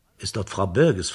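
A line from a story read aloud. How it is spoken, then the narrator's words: Plain. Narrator (German): fragte er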